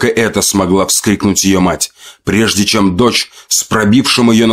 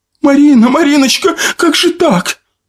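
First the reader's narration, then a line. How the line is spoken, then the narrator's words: Anguished wail. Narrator (Russian): завопила мать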